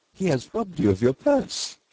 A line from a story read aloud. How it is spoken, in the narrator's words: they laughed